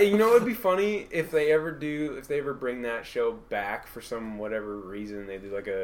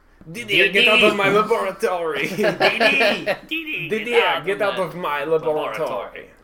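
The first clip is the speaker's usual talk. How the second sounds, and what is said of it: Cartoon scientist voice, German accent. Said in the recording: “Why does he have an accent? ... Why is he German?”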